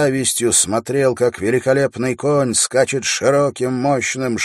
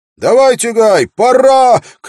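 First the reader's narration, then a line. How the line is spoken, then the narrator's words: Urging shout. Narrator (Russian): крикнул Уилл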